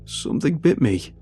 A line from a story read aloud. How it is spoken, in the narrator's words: he exclaimed